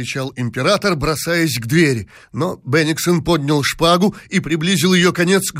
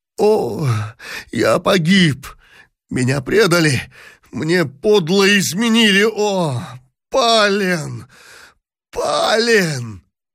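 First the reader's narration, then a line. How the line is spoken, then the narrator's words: Anguished moan. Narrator (Russian): простонал в тоске император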